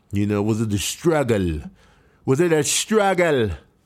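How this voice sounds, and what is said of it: Put-on accent. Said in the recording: “I don't know why I said that with an accent”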